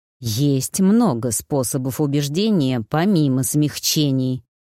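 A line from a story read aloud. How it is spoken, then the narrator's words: Sinister hiss. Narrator (Russian): зловеще прошипел Хвар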